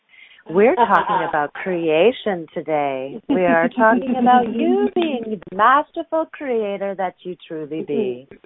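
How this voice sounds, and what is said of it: Deep, sultry radio voice. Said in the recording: “You really do have a deep voice today. Our producer was saying that you sounded sultry ... my radio voice. All sultry and sexy.”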